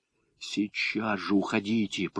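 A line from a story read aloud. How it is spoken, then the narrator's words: Hiss through closed lips. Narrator (Russian): прошипел я, не разжимая губ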